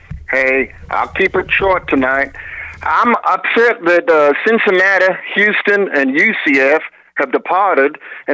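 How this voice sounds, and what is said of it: Southern American accent. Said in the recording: “with that accent ... you are a Southern gentleman”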